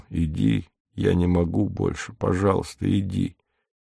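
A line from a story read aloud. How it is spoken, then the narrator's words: Low even voice. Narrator (Russian): говорит низким ровным голосом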